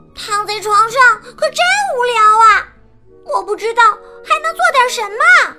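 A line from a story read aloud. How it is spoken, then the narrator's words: Loud call. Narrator (Chinese): 小老鼠梅兰妮还没睡着，它大声叫道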